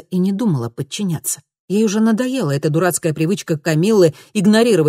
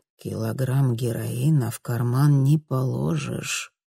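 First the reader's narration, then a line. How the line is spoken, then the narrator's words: Low-voiced explanation. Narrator (Russian): низким голосом объяснил Ларс Йоргенсен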